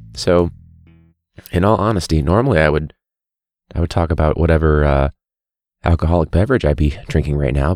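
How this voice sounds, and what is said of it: Very low, quiet voice. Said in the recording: “I'm talking in a very low voice because I'm trying to save my voice”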